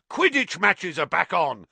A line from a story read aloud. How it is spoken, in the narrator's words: roared Wood excitedly